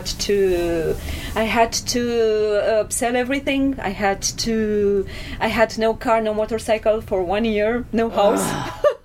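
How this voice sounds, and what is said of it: Romanian accent. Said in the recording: “Are you from Romania? I can hear the accent.”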